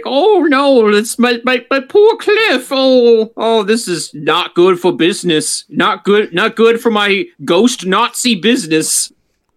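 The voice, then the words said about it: Weak attempt at German-accented villain voice. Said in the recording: “I like this Red Skull voice. ... I can't really do a good German accent, unfortunately.”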